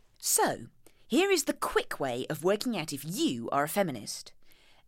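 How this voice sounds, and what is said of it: Posh reading voice. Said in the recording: “I'll do it in my posh reading voice.”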